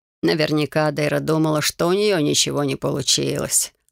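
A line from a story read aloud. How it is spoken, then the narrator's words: Wry snort. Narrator (Russian): хмыкнул он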